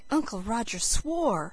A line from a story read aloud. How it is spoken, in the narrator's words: said Felicity in a shocked tone